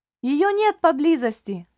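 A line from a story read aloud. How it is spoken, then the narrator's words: Boy shouting. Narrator (Russian): крикнул мальчишка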